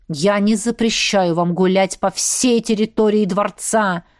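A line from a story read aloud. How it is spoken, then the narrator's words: Growled. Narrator (Russian): рыкнул он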